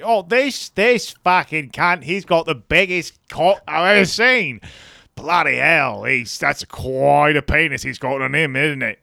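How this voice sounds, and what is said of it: Spot-on put-on Australian accent. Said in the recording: “Australian TV ... You're spot on with that accent.”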